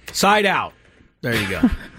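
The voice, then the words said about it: Volleyball referee voice impression. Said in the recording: “It's my volleyball referee impression.”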